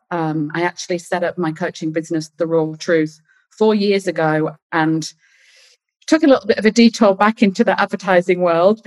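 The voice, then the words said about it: British accent. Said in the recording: “You can probably hear that I've got a British accent.”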